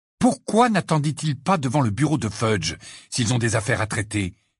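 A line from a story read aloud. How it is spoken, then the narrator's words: Furious exclamation. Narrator (French): s'exclama Harry d'un ton furieux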